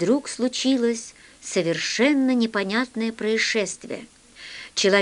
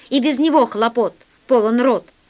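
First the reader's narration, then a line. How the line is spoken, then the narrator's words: Yelling. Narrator (Russian): завопил весельчак У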